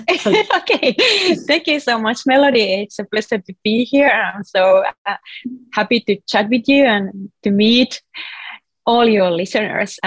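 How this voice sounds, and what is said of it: Finnish accent in English. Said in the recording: “originally I'm from Finland, if you can hear a weird accent. So that's ... where the accent comes from.”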